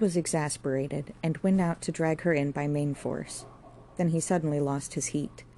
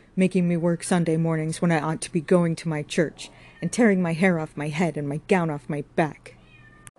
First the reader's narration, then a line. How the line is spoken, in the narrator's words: she cried